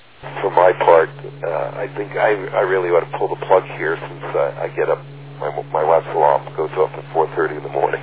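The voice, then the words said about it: Tired, fading voice. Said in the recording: “fatigue ... I'm losing my voice.”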